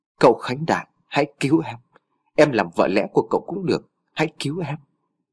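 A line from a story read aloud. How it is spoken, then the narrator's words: Faint, blood-choked whisper. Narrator (Vietnamese): thều thào nói bằng giọng khe khẽ vì cổ họng đã ngập máu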